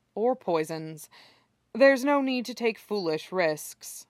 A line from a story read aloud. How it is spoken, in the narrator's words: sighs faintly, and adds